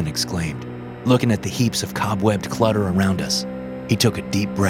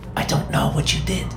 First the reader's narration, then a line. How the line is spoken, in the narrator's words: she whispered